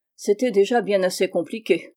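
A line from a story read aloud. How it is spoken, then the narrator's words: Grumbling. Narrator (French): grommela Lestrade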